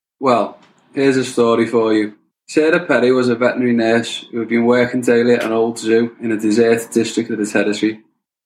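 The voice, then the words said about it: Scouse Liverpool accent. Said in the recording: “Scousers. ... Liverpool. ... Northwest. ... the accent is Scouse.”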